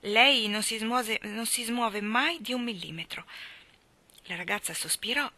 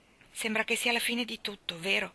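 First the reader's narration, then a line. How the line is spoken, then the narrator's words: Dejected murmur. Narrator (Italian): mormorò sconfortata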